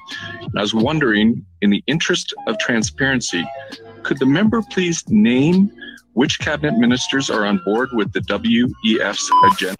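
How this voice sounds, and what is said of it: Canadian accent. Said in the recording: “He did sound Canadian. ... he did sound Canadian.”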